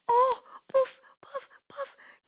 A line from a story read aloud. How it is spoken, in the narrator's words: gasped Big Lion